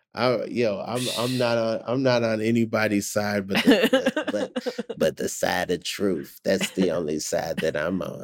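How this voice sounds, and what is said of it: Imitates another person's voice. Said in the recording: “That's a really good Cat Williams impression. That was really good.”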